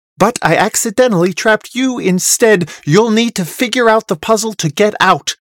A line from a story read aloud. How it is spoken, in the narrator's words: Murnith snaps